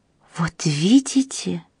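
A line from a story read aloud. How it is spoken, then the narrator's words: Whispered. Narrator (Russian): прошептала госпожа Макнотон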